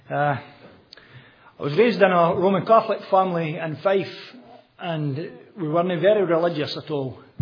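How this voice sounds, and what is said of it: Scottish accent. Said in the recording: “You recognise the accent is Scottish.”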